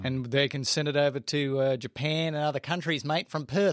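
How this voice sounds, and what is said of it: Put-on Australian accent. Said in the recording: “I can't do that Australian accent.”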